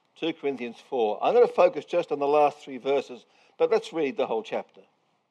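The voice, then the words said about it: Strange, unfamiliar accent. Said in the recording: “my strange accent... You can understand me?... you guys do talk funny”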